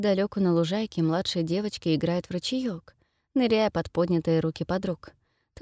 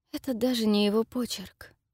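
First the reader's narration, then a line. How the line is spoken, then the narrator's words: Lifeless voice. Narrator (Russian): заговаривает, наконец, Фелисити безжизненным голосом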